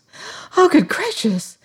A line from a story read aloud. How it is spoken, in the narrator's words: she cried